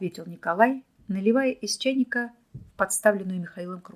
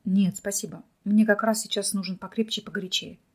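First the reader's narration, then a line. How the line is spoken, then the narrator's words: Quiet and calm. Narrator (Russian): негромко ответил Михаил, успокоившись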